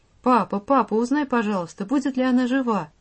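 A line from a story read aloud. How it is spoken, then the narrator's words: Tearful babbling. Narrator (Russian): обливаясь слезами, лепетала Аля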